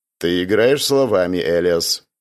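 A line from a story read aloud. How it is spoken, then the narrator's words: Grim declaration. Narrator (Russian): мрачно заявил император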